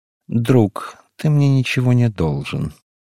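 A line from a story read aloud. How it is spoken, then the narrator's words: Lazy. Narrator (Russian): сказал он лениво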